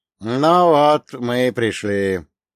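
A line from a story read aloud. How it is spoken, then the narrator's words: Low muffled old man. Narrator (Russian): глухо произнес дедка Большак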